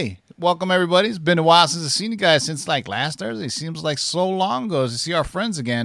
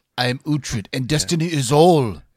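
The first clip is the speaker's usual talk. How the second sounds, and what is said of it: Weird put-on accent. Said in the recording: “It's kind of a weird accent”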